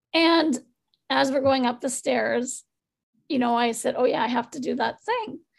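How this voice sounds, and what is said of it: Strained, fading voice. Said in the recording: “I'm losing my voice now”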